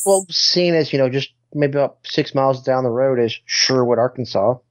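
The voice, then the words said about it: Southern American accent. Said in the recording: “his Southern accent ... I've got a Southern accent now”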